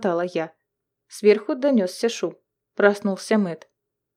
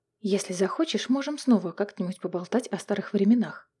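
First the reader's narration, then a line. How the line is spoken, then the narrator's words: Whisper. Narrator (Russian): прошептала Мэгги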